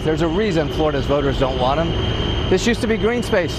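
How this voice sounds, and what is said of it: Raised voice over loud noise. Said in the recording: “the reason I'm having to raise my voice, is the noise pollution”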